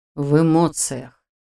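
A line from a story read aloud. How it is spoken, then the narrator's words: Sigh. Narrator (Russian): вздохнул Шелтер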